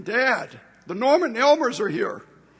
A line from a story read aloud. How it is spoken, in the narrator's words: our toddler son, now returned missionary himself, ran up to us exclaiming